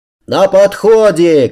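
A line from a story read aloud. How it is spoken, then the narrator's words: Shouting. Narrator (Russian): крикнул я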